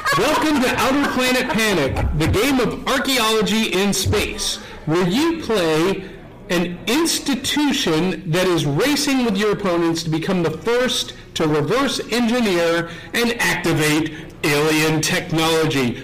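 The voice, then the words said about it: Dramatic announcer-style reading voice. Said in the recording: “Read the back out loud with your most dramatic voice.”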